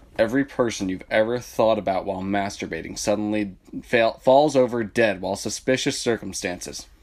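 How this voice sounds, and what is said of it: Radio announcer voice. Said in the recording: “My radio voice.”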